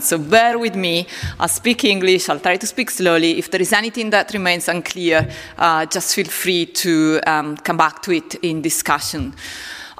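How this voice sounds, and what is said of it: Italian accent speaking English. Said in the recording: “my accent, my Italian accent, which you can already hear when I speak English”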